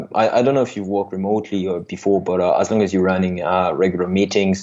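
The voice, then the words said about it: French accent. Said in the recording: “I guess you you heard by my accent that I'm I'm from France.”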